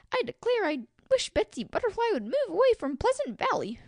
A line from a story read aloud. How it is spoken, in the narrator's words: Freddy Firefly exclaimed at last, quite out of patience with everybody and everything